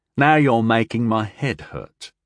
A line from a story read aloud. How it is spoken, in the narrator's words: Tyndall said